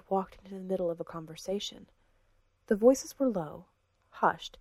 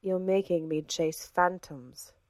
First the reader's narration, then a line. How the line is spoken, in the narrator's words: said the woman, evenly